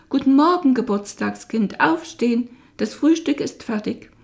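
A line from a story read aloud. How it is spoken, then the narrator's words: Called out. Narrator (German): Ich holte tief Luft, machte die Tür zum Kinderzimmer weit auf und rief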